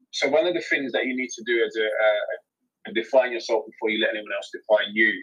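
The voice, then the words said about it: London accent. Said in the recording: “my London accent ... inner city”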